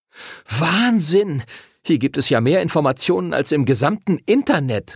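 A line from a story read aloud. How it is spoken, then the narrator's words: Excited shout. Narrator (German): rief Arthur aufgeregt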